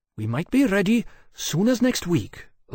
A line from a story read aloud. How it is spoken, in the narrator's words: Lloyd said, one last gasping attempt